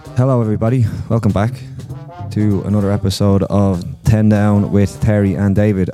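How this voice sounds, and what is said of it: Congested, slightly hoarse voice. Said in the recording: “it sounds like I'm quite hoarse ... you're not hoarse. You're bunged up ... my voice was probably gone”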